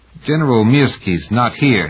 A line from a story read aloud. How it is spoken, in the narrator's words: he said thickly